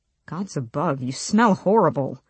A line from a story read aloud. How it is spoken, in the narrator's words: he muttered